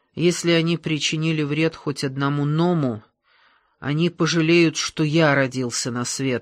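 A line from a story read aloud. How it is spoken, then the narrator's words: Plain. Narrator (Russian): сказал Масклин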